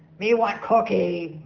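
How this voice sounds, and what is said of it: Poor Cookie Monster character voice. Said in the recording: “Cookie Monster from Sesame Street. Good, even with my terrible impersonation.”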